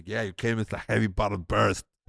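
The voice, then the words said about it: Imitates another person's voice. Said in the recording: “Your impersonation's insane. ... your ego impersonation is real. ... That is really good.”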